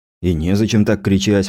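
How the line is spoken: Sighing. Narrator (Russian): вздохнул

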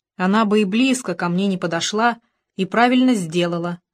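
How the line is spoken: Plain. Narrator (Russian): сказал Том

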